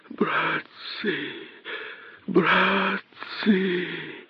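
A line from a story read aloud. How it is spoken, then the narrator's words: Whispering. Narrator (Russian): шептал им косой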